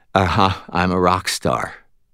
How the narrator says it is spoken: Molly said, her voice listless

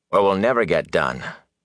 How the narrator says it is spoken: Rand told him firmly

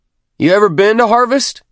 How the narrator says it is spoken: Healy shouted over the howl of the shuttle's thrusters

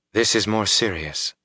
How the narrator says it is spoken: she said softly

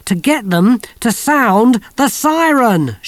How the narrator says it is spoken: shouted Kirsty

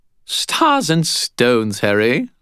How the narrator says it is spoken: Bob said merrily

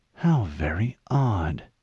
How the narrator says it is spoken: Halsey whispered

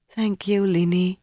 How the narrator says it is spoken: Elaine murmured

